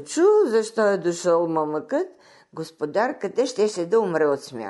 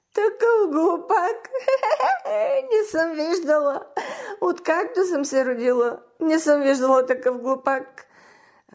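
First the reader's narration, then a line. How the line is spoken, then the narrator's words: Tearful repetition. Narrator (Bulgarian): Повтаряше тя през сълзи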